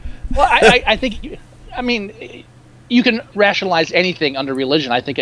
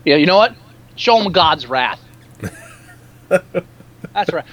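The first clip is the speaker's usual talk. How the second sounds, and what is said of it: Poor attempt at Irish accent. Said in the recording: “that's supposed to be like an Irish accent, and it's not ... accent is probably the worst Irish accent I've ever heard”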